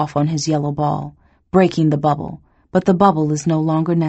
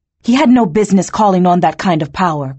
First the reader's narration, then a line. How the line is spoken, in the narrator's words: Kurue snaps